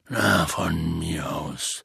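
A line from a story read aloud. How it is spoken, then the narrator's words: Resigned voice. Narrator (German): sagte mit resignierter Stimme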